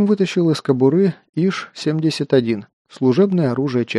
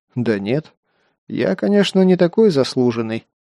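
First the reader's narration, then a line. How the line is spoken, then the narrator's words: Sarcastic. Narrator (Russian): ехидно произнес Кир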